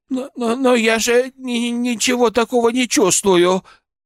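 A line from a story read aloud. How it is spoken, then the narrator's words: Faltering murmur. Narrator (Russian): пролепетала она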